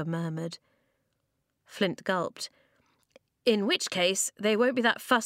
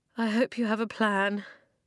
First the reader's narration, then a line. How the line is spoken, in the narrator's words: Flint moaned